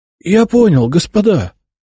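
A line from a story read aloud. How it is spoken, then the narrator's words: Wheezed. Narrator (Russian): просипел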